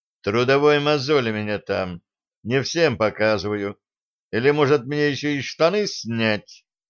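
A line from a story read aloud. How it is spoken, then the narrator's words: Indifferent voice. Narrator (Russian): Он безразличным голосом сказал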